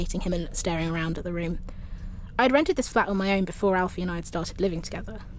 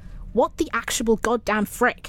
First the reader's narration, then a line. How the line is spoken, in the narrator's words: I exclaimed